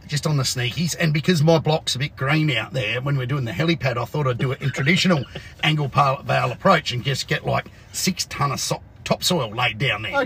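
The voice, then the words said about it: Croaky, hoarse voice. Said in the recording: “my voice is croakier than normal, and I'm coughing and spluttering”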